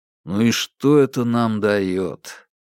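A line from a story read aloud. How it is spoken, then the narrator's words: Gloomy, asking himself. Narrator (Russian): уныло спросил себя Бабкин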